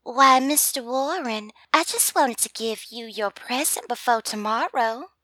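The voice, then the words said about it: Thick put-on Southern belle accent. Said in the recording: “with a thick Southern girl accent ... my attempt to sound like a Southern belle”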